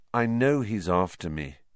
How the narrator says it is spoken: said Harry wearily

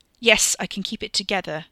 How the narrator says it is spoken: Ricky snapped

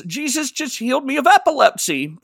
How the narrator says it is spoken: she shouts

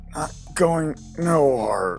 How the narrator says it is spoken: he slurs

